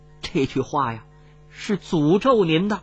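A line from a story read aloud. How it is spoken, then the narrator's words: Trembling voice. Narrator (Chinese): 这大臣颤声说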